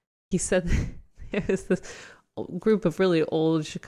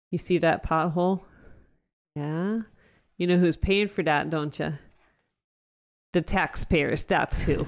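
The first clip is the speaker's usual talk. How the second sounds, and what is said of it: Thick put-on Chicago accent. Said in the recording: “these real thick accents, these Chicago accents ... Is that your Chicago accent? ... That's Chicago accent.”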